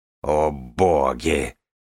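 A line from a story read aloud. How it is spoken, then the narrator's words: Growl. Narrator (Russian): прорычала Нинавис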